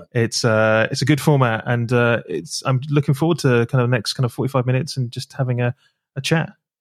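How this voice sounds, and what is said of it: British accent. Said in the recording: “listen to the beautiful sounds of a nice British accent”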